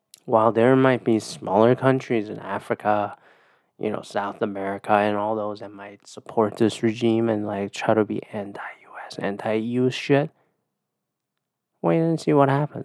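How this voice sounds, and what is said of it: Quiet, strained sore voice. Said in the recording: “I'm doing my quiet voice because my voice hurts.”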